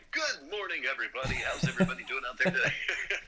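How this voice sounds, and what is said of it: Announcer-style podcast voice. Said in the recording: “That's a perfect podcast podcast voice.”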